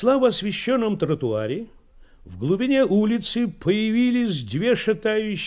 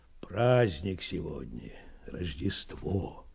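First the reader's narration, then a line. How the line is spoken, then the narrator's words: Quiet reply. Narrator (Russian): тихо ответил Меркулов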